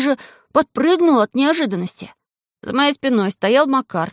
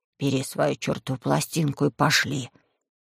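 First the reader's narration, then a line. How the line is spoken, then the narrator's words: Hoarse, as if with cold. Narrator (Russian): голос Макара хрипел, и будто простуженный сказал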